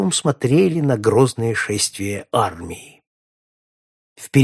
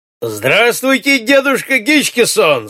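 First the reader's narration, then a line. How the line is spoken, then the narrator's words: Shouting from afar. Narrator (Russian): закричал Эльвард, еще издали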